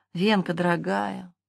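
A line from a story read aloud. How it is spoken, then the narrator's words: Sighing. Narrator (Russian): вздохнул Филипп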